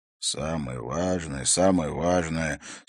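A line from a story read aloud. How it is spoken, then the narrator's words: Grumbled with mild annoyance. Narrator (Russian): с легкой досадой пробурчал Харри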